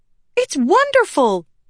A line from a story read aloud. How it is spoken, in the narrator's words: Shallan exclaimed